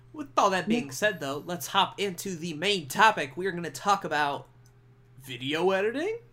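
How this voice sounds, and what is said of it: Imitates another person's voice. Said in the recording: “That was my Adam Sandler impression. ... I wasn't trying really all that hard.”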